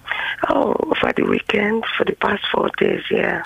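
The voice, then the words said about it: Congested voice with a cold. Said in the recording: “I've got a bit of cold ... You sound terrible.”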